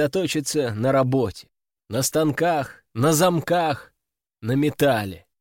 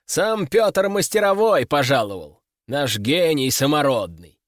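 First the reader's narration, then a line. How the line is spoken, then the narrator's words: Loud, for all to hear. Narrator (Russian): сказал он громко, так, чтобы все вокруг слышали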